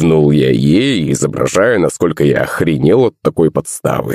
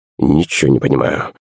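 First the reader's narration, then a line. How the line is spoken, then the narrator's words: Mumbled. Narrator (Russian): пробормотал батя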